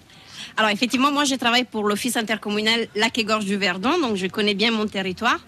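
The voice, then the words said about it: Slight foreign accent. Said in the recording (French): “elle a un petit accent”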